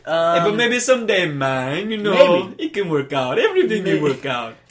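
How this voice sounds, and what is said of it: Tobago accent. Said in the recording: “it's just a lovely accent... Where's that accent from? Are you from Trinidad?... No, man, Tobago.”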